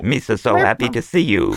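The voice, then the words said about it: Jar Jar Binks cartoon character voice. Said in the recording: “could you do Jar Jar as a robot? ... How does your voice do that? Like, that is not a natural ... thing.”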